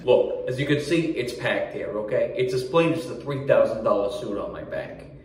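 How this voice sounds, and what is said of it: Exaggerated Long Island New York accent. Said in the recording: “I'm not just some yutz from Long Island doing a bad accent.”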